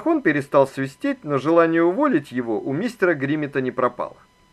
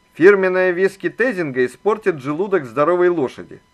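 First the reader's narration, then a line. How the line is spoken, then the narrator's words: Plain. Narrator (Russian): ответил Макмахон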